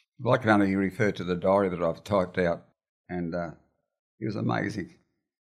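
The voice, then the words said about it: Emotional, choked-up speech. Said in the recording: “I'm getting a bit emotional.”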